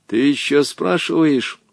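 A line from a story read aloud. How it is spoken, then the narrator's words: Menacing reply. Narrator (Russian): Грозно ответил ему Волька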